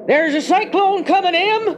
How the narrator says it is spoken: shouted

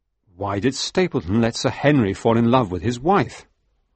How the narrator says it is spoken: asked

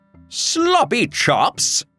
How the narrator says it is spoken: screamed

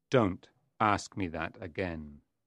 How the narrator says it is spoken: Mephistopheles said menacingly

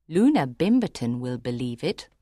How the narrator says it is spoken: Miss Mebbin told her quietly

